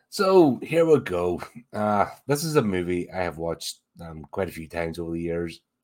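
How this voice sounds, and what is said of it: Slightly raspy, hoarse voice. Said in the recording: “I started getting a wee bit of a raspy throat this morning... if this sounds awful, more awful than usual”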